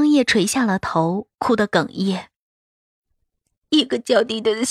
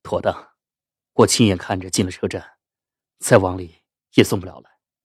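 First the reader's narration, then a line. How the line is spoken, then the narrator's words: Low voice. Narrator (Chinese): 东桑低声说着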